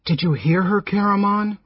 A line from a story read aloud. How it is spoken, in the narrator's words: Raistlin asked anxiously